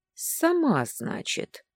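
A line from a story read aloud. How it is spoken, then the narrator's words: Thoughtful. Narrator (Russian): задумчиво произнес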